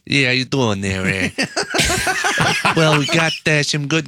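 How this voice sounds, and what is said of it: Brian Gregory impression, wise-guy gangster voice. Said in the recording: “good Brian Gregory impression ... almost like a Hollywood character ... It's almost got a Chicago gangster sound ... Like a wise guy ... like the guy who's assisting the main gangster”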